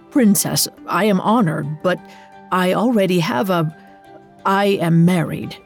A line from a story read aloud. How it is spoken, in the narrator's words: He stammered in response